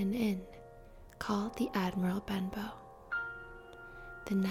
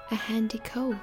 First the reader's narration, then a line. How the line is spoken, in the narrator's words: he said